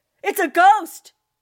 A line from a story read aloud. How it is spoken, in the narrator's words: he shrieked